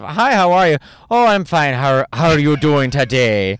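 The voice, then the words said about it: Attempted Irish accent, sounds Midwestern. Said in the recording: “I think I'm doing like the mom from Bobby's World... I'm a Wisconsin mom. That's my Irish accent.”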